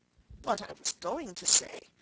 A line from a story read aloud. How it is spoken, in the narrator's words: said the dodo, in an offended tone